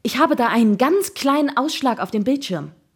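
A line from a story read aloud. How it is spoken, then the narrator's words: Calling out. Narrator (German): rief er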